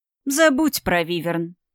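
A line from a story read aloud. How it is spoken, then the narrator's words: Snide sneering king. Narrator (Russian): ехидно оскалился король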